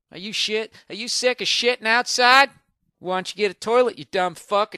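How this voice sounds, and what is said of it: Put-on dumb southern accent. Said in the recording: “if they're a moron, has to have a southern accent”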